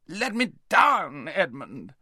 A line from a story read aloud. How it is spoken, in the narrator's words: howled Rabadash